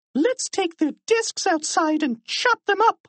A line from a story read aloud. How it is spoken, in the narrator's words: cried Miserable